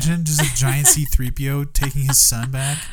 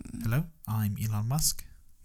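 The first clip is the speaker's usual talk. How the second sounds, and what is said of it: South African accent impression. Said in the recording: “A bit of a South African accent ... He talks like that ... That was definitely closer.”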